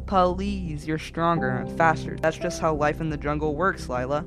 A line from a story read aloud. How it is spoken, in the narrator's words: I replied